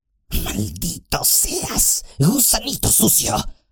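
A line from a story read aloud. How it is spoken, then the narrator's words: Hiss. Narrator (Spanish): siseó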